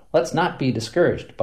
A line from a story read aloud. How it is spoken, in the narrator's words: Buffington said